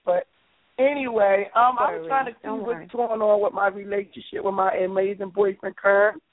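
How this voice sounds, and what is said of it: Hoarse, sick-sounding voice. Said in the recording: “I'm a kind of sick. I sound a kind of hoarse. That's why I sound, you know, like this.”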